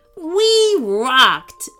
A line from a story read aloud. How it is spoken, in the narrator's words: roared Jasper